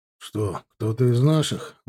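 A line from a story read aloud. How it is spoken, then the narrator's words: Grumbling mutter. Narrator (Russian): буркнул Женя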